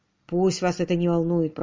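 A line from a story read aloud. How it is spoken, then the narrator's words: Grumbling. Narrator (Russian): пробурчал Родерик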